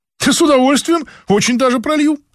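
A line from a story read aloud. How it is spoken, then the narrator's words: Fast excited chatter. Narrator (Russian): оживилась та и затараторила с такой скоростью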